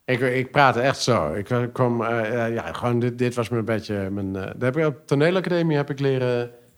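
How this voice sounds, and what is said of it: Pronounced regional Dutch accent. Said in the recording (Dutch): “je hebt natuurlijk wel een vrij eh, uitgesproken accent ... Dus dit is al de light versie?”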